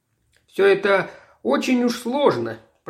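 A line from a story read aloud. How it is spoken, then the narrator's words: Commissar grumbling. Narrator (Russian): пробурчал комиссар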